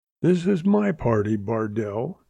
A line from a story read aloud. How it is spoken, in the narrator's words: he rasped